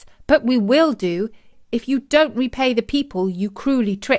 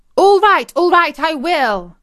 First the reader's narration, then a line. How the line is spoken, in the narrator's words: shrieked Agrippina from behind the sofa